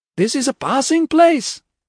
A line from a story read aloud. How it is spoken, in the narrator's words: yelled